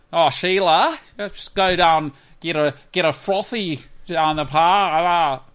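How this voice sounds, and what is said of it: Put-on Australian accent, high voice. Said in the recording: “It's when the voice is high mixed with Rotorua, Ringirong, Dingo ... That's what they sound like ... Australian Australia”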